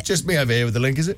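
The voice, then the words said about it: Smug voice. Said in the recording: “you do that smug voice”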